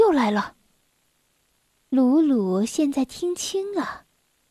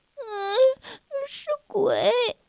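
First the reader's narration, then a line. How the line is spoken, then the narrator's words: Quiet. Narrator (Chinese): 小薇小声地说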